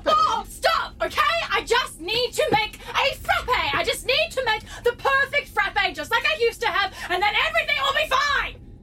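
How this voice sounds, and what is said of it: Yelling. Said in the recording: “sorry for yelling”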